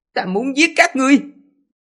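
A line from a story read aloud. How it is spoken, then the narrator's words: Low growl. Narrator (Vietnamese): Hoành Mục Lập Nhân gầm nhẹ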